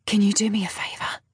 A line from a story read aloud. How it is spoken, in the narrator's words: I whisper in her ear